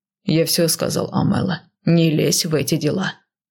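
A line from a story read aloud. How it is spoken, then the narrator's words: Gruff growl. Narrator (Russian): грубовато рыкнул он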